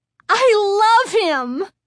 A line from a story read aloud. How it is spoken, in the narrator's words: Chris cried happily